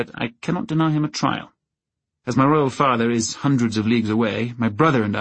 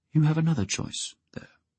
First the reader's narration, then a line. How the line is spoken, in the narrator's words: Prince Baelor said quietly